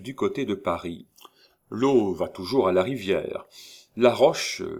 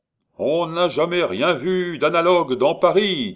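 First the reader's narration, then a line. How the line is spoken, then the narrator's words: Shouting. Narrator (French): criait-il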